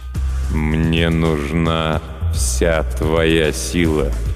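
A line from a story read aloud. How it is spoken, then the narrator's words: Slow. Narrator (Russian): медленно произнес некромант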